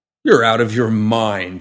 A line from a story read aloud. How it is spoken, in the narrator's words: Eli scoffed